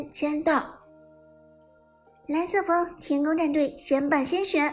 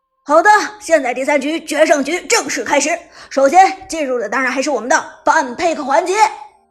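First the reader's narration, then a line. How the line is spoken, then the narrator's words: Loud. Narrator (Chinese): 九州子豪大声地说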